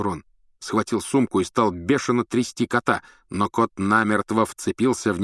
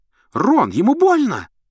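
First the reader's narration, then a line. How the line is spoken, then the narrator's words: Shrill squeal. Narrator (Russian): взвизгнула Гермиона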